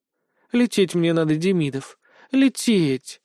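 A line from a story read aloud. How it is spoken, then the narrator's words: Purring. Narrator (Russian): мурлыкала Китоглав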